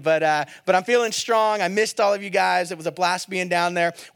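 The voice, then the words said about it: Choppy, worn-out voice. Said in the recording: “my voice just went away. So if my voice is a little choppy today, it's coming back.”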